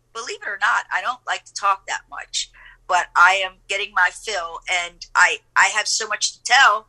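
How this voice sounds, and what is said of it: Hoarse voice. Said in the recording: “I'm hoarse. I can hardly barely talk. My voice is hoarse, you know. It's getting hoarse right now.”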